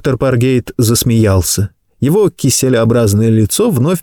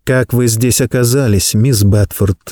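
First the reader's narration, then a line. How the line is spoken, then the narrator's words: Gentle question. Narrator (Russian): мягко спросил Чарльз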